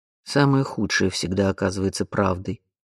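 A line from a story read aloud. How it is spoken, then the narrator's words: Dry curt father's voice. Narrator (Russian): сухо отрезал отец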